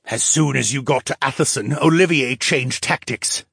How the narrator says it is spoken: the mage said

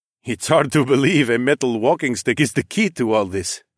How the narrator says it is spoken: Nike chuckled

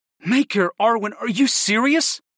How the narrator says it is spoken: I gasped

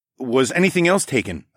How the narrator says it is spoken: I asked

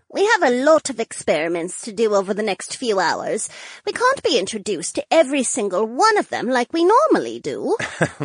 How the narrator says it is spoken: Josephine giggled

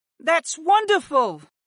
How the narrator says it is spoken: Ashla exclaimed as she smiled

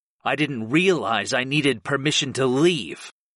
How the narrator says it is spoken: I snarled

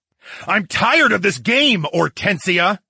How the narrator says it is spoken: I roared

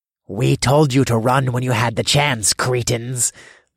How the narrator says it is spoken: snarled

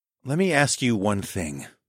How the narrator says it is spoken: I whispered

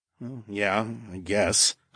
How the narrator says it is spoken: I mumbled, as I realized where he was going with this

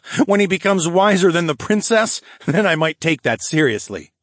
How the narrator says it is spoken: I laughed

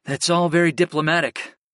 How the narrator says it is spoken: I sighed

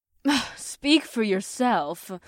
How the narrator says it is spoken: Theora scoffed

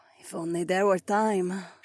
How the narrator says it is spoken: she breathed

